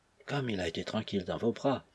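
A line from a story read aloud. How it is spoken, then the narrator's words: Low voice. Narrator (French): à voix basse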